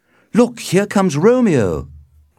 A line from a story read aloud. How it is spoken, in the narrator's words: cried Benvolio